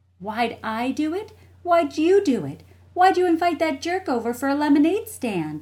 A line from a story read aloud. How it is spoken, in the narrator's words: shouted Jessie